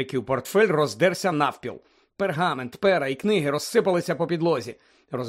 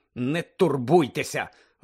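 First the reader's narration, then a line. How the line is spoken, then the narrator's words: Irritated grumble. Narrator (Ukrainian): роздратовано буркнув Седрик своїм друзям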